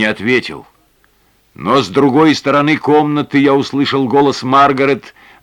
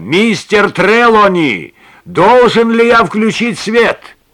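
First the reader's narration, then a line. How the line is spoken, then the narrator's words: Louder repeated shout. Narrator (Russian): я крикнул снова, но более громко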